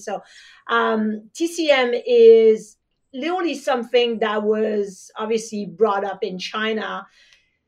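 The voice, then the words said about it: French accent. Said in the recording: “as you can hear with my French accent”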